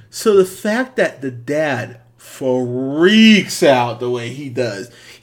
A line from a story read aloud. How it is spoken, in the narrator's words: he yells so loud